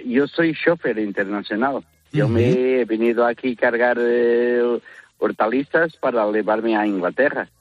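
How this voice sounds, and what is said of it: Portuguese accent speaking Spanish. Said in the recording (Spanish): “tienes acento de fuera de España ... yo soy de Portugal”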